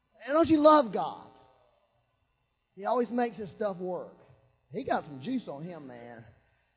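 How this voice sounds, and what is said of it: Loud yelling preaching voice. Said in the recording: “I'm here yelling. ... I'm yelling today, getting it out of me”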